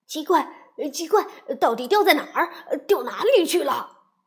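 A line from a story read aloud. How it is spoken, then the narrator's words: Anxious loud shouting. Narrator (Chinese): 啄木鸟在着急的大声嚷嚷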